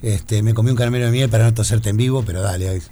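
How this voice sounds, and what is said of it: Announcer voice, slightly hoarse from cold. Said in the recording (Spanish): “vos tenés voz de locutor ... estoy un poquito eh, medio como resfriado, con un poco de tos ... tenés voz de vino, vos de cascado, es voz de locutor”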